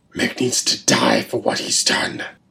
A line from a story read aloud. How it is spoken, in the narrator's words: growled